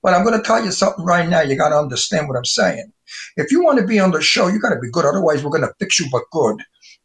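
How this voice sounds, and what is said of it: Heavy Brooklyn Italian wise guy accent. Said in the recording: “My accent is the antique Brooklyn Italian wise guy accent ... I tone it down a little. But if I let it go and I talk to you Brooklyn stuff, forget about it, you don't understand what I'm telling you ... That's Brooklyn real, not the way they do it in the movies”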